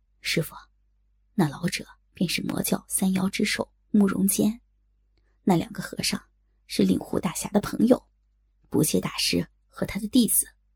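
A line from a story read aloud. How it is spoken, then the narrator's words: Soft whisper. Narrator (Chinese): 在小龙女耳边轻声道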